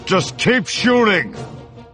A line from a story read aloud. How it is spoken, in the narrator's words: Han said through clenched teeth